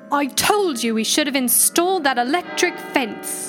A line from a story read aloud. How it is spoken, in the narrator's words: An angry voice bellowed back